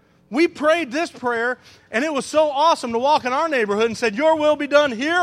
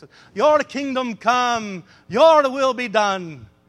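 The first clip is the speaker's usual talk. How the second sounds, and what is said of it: Put-on Scottish-like accent. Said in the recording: “talk Scottish or whatever accent”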